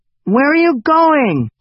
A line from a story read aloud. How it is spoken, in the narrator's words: Hugo yelled